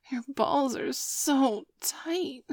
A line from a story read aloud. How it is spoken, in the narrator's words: whined Sabrina, doing her best cutesy little girl voice